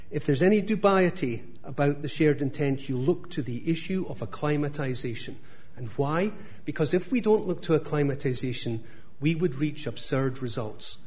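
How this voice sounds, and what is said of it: Scottish accent. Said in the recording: “speaks with a Scottish accent ... That's how you speak, right? ... That's exactly right. That's how I speak”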